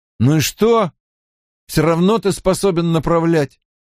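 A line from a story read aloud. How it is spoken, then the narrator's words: Grumbling. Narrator (Russian): бурчал Мэтт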